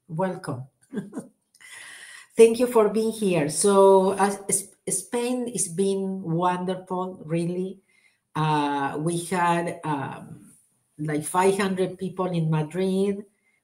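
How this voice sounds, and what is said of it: English with an Argentinian accent. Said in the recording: “this is English with an Argentinian accent.”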